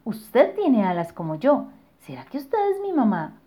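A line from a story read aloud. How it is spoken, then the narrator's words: Exclaimed. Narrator (Spanish): exclamó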